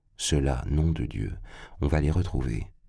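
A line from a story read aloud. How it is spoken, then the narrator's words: Murmured. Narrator (French): il murmura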